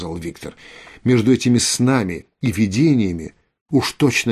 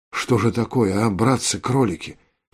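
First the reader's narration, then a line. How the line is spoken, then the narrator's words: Whisper. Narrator (Russian): прошептал Виктор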